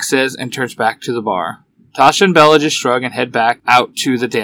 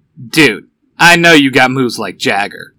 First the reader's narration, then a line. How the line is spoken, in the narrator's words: Van says with a light chuckle